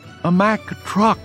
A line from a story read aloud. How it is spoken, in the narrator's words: Dumpty whimpered, a little forlorn